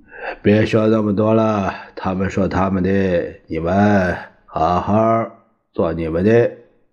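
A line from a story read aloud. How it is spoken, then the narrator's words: Sighing. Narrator (Chinese): 他叹了一口气说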